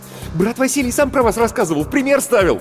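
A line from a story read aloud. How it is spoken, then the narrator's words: Excited rapid chatter. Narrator (Russian): с азартом затараторил Антон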